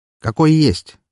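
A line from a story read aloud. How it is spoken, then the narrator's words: Wry grunt. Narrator (Russian): хмыкнул я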